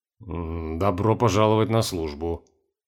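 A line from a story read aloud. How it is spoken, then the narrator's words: Gloomy, resigned. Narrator (Russian): мрачно ответил Нортон, понимая, что серьезно влип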